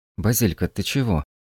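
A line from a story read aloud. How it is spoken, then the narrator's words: Sleepy mumble. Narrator (Russian): пробормотала, продирая заспанные глаза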